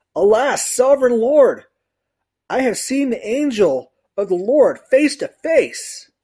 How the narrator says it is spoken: Gideon realized that this was the angel of the Lord, he exclaimed

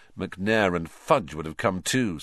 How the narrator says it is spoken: said Harry bitterly

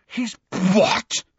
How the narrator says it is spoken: spluttered Ron, outraged

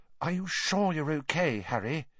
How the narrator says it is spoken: said Hermione, watching Harry anxiously

